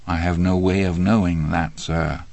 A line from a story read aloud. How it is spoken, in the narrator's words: Andy said quietly